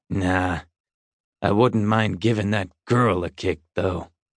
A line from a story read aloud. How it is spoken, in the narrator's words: Bowers growled